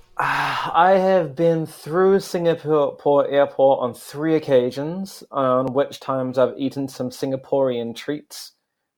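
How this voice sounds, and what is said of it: New Zealand accent. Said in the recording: “you have an accent too. You have a Kiwi accent too”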